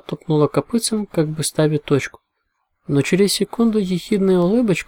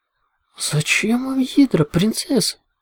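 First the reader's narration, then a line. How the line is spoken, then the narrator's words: Moaning. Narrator (Russian): простонала Пегаска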